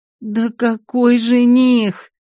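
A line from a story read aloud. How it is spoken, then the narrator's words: Loud moaning. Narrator (Russian): громко стонала пепельноволосая красавица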